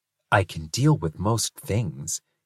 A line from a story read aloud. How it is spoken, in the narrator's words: he whispered to Calliope